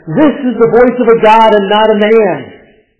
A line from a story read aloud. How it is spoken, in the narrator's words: They shouted